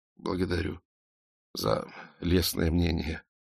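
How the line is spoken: Mumbling. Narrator (Russian): пробормотал Эраст Петрович

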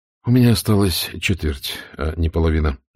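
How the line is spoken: Sighing. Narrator (Russian): вздохнул Штирлиц

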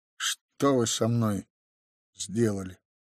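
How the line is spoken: Said quietly. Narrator (Russian): тихо произнес он

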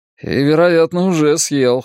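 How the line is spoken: Snorting. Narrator (Russian): хмыкнул Билл

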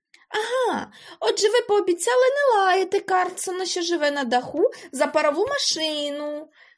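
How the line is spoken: Joyful child. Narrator (Ukrainian): радісно сказав малий

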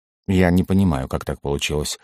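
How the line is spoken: Weary woman. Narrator (Russian): устало произнесла женщина

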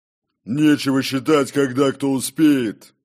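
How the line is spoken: Barked. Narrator (Russian): рявкнул Горм

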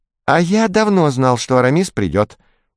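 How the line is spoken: Squeaky voice. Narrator (Russian): пропищал Етуркен Жансерхиф

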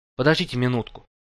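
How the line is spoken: Hurried interruption. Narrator (Russian): торопливо прервал я его разглагольствование

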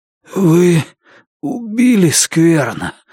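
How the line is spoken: Hoarse. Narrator (Russian): прохрипел Лун

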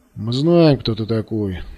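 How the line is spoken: Muffled grumble. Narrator (Russian): глухим голосом проворчал вожак группы

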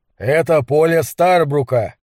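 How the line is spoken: Threatening tone. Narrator (Russian): сообщил Гэлен угрожающим тоном

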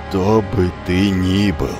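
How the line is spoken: Low, muffled growl. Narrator (Russian): глухо прорычал Амфитрион

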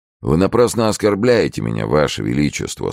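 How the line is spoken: Dry, cold. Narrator (Russian): сухо ответил Фуке

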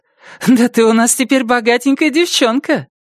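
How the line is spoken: Joyful squeal. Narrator (Russian): Джасмин радостно визжит и заявляет

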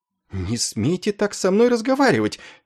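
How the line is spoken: Indignant woman. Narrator (Russian): возмущенно отзывалась она

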